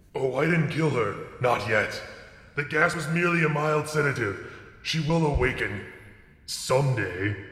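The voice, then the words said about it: Creepy villain character voice. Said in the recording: “creepy voice”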